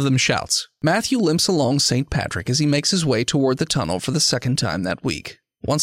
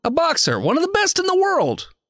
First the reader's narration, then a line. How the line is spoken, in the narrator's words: he says excitedly